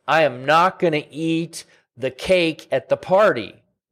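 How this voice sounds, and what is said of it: Raised, angry voice. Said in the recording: “sorry if I was raising my voice there, but I get mad at myself”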